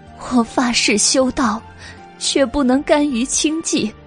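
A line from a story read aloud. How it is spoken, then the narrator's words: Remorseful, anguished pleading. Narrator (Chinese): 顺承公主悔恨而痛苦，哀求白姬道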